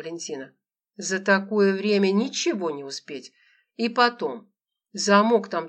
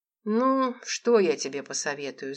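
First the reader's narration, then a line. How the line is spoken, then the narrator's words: Thoughtful. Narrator (Russian): задумчиво заговорила Валентина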